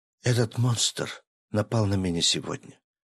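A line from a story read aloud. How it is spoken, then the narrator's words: Quiet. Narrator (Russian): наконец тихо произнесла Мила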